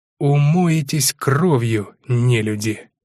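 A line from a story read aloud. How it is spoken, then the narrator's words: Hateful, through gritted teeth. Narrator (Russian): С ненавистью процедил воинов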